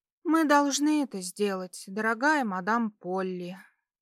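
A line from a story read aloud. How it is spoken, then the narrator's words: Weary sigh. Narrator (Russian): Устало вздохнула девушка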